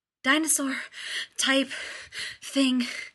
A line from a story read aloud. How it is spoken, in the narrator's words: Rodney gasped, pressing a hand to the stitch in his side